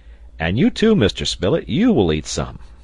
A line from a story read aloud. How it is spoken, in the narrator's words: he exclaimed